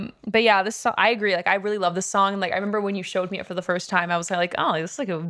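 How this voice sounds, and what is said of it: Usual voice. Nothing is said of it.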